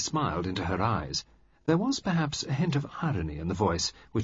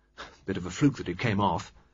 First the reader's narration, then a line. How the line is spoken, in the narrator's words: Flushed and pleased, Reggie mumbled